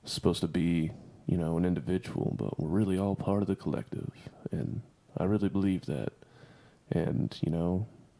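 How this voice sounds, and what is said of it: Put-on smooth buttery voice. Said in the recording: “Are you doing your voice thing? ... Stop doing that to your voice. ... You're trying to do the buttery thing, aren't you?”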